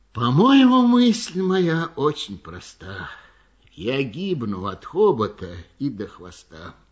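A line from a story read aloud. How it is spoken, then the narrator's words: Weary repetition. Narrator (Russian): слон все сидел и устало твердил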